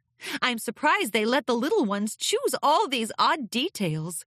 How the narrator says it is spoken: laughed

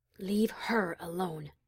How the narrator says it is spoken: she whispered

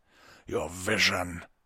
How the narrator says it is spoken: he growled

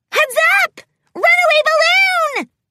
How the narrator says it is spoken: Pinkie Pie squealed as she bounded after the fugitive

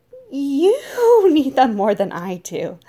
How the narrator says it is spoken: I laughed awkwardly, sickening concern encroaching on my heart

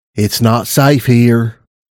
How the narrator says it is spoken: I said in my softest voice

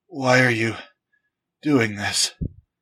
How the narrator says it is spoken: gasped

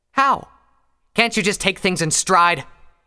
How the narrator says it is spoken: Pyre snapped

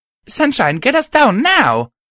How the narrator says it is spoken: I shouted

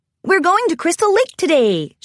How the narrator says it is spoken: she exclaimed

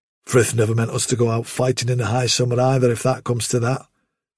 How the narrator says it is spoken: said Silver

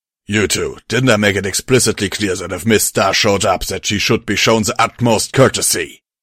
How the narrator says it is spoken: Kirby barked

